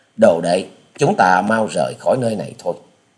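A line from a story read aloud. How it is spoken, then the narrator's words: Soft sigh. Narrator (Vietnamese): Hà Xà tiên tử nhẹ buông tiếng thở dài, quay đầu bảo với Tạ Trinh Trinh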